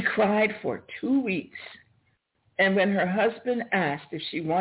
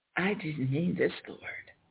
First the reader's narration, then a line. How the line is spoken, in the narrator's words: She whispered